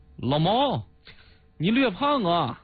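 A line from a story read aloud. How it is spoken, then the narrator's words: Loud. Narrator (Chinese): 一位代表大声的说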